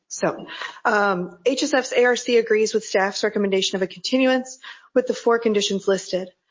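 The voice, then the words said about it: Sick, unsteady voice. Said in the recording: “excuse my voice if it changes throughout this because I've been sick”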